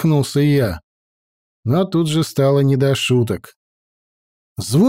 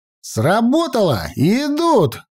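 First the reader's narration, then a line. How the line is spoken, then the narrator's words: Shouting to everyone. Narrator (Russian): крикнул всем я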